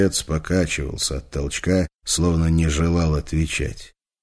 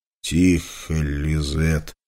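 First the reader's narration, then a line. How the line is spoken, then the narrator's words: Hoarse rasp. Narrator (Russian): прохрипел Петр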